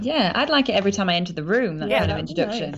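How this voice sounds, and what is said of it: British accent. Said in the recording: “They're British, they've got lovely accents”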